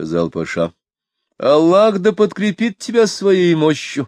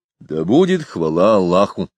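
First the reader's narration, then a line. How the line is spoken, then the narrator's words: Plain. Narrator (Russian): сказал он наконец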